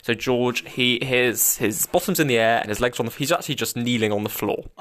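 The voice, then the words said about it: Slightly breathless, sweaty-sounding voice. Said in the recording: “my voice is a little bit more sweaty”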